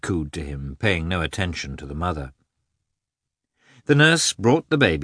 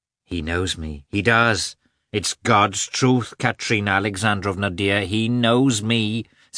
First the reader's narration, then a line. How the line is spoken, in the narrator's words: said Agafya Mikhailovna, raising her voice above the baby's